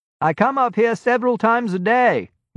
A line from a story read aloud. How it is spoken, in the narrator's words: Malcolm said, raising his voice above the wind and the shrieks of the gulls